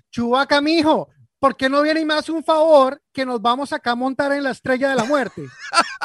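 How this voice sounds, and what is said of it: Put-on Colombian Spanish accent. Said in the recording (Spanish): “con acento colombiano ... Yo quisiera verla con ese acento”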